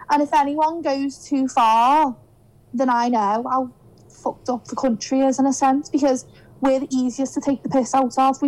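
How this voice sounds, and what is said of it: Liverpool Scouse accent. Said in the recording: “We've got the easiest accent... comparing my accent with some American woman... the way I said Liverpool... Scouse”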